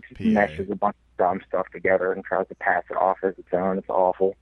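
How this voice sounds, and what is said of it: Slight Southern-tinged Pittsburgh accent. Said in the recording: “a slight Texas accent in you? You have a little bit of Southern accent in you... Pittsburgh just has the weirdest accent... I thought he sounded very PA-ish”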